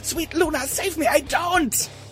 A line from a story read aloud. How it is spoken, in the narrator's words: He screamed as tears poured down his face